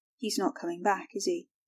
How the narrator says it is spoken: Tom slurred

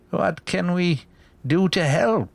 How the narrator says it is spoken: He asked in a frail voice

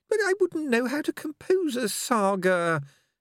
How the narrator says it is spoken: he said feebly

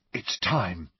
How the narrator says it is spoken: said Angelina in a hushed voice

